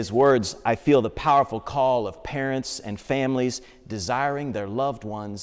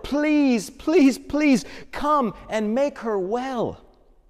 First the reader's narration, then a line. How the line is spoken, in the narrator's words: begged him over and over